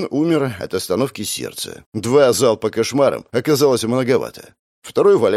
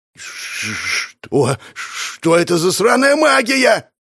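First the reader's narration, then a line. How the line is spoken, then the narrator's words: Shouted. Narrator (Russian): прокричал он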